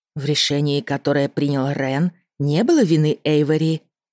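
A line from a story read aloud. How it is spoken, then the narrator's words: Soft remark. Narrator (Russian): мягко заметила мама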